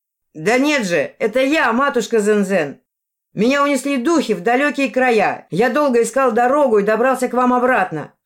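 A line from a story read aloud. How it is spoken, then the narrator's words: Shout. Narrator (Russian): крикнул Ас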